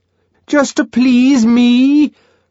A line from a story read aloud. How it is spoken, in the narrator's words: Bernard bellowingly wheedled